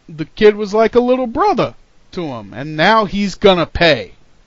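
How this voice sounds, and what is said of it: Weak Razor Ramon impression. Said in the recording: “that your Razor Ramon impression? ... It was not a very good Razor Ramon impression”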